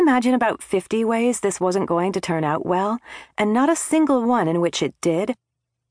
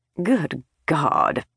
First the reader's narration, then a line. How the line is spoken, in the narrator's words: mumbled